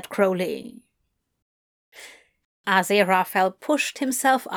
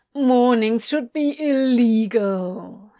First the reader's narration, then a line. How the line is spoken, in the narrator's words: he whined